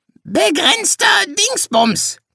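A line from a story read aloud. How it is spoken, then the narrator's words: Parrot's croak. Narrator (German): krächzte der Papagei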